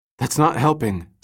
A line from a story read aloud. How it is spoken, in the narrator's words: Summer gasped